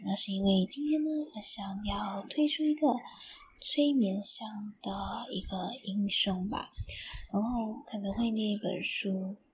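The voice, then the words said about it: Soft, quiet speaking voice. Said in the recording (Chinese): “可能大家今天听我的声音会比较小声一点点”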